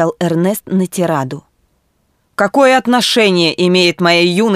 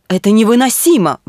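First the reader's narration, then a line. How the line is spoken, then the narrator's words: Exclaimed. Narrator (Russian): воскликнул полковник Ван Гилберт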